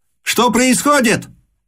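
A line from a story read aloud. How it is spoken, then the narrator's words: Shouted. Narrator (Russian): крикнул великий князь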